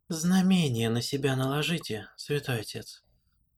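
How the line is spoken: Even-toned advice. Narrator (Russian): посоветовала ему Лайрен ровным голосом

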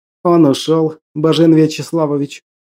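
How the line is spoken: Whisper. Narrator (Russian): прошептал Чумаков

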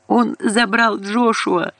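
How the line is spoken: Sobbing. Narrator (Russian): Она начала всхлипывать

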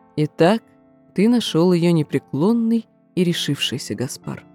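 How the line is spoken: Soft speech. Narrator (Russian): мягко проговорил

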